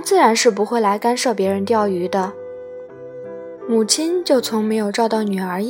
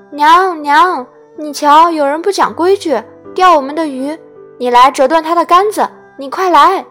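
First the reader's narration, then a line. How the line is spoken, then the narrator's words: Loud calling out. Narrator (Chinese): 三三便喊叫他的妈，高声地说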